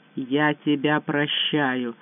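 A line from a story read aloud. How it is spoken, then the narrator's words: Hollow muffled voice. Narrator (Russian): глухо произнес Байдер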